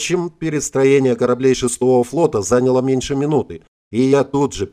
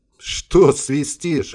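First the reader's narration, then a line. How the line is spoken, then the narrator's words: Short laugh. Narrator (Russian): хохотнул Харитонов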